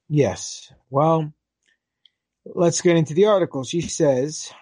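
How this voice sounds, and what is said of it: Usual voice. Nothing is said of it.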